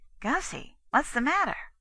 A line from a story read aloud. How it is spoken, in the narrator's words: inquired anxiously